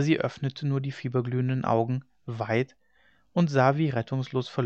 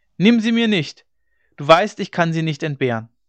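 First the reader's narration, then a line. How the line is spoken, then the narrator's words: Shout. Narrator (German): schrie er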